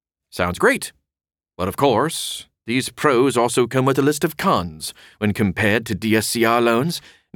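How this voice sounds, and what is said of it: Poor put-on English accent. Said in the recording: “No idea where the English accent came from. It was terrible.”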